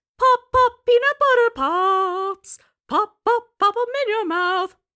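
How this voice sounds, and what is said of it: High-pitched singing in Boston accent. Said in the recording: “Did he go that high too? ... Yeah. In the Boston accent.”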